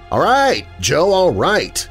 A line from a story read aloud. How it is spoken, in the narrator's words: Eddie finally yelled into the mouth of the tunnel